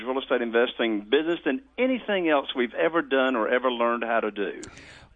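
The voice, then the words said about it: Southern American accent. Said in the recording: “you were from the South before you started talking, you just completely gave it away ... If you were trying to pretend like you were from the Midwest, it is not working ... I actually love your accent ... You got that accent.”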